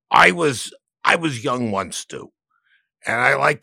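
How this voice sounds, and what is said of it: Impression of the interviewed guest. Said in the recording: “I do an impression of you... here's my impression”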